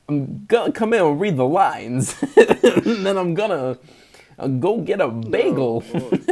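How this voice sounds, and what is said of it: Christopher Walken impression. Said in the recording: “You got to do the voice if you're going to talk about Christopher Walken ... I'm Christopher Walken.”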